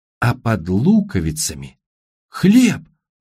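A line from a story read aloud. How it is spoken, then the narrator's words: Exclamation. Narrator (Russian): воскликнул Тимоти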